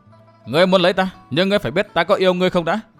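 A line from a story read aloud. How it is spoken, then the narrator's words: Laughing woman. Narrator (Vietnamese): Nàng cười lớn hơn rồi nói tiếp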